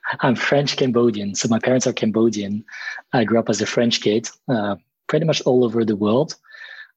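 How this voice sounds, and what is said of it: French accent with worldly mix. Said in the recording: “You've got such a good like combination of accents ... You definitely have a French accent, but it's got this worldly feel to it.”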